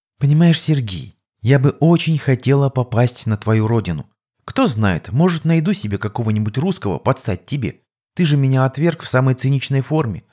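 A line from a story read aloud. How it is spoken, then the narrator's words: Sighing, mock-modest. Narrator (Russian): вздохнув, произнесла Клайра, нарочито скромно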